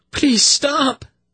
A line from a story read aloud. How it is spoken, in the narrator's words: Zinedra cried to Velvet in an anguished voice